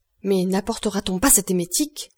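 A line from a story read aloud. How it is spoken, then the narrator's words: Exclaimed. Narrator (French): s'écria le docteur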